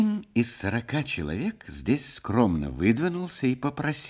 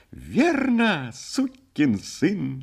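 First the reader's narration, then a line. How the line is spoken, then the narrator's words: Exclamation of sudden realization. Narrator (Russian): охваченный пониманием воскликнул Чепурный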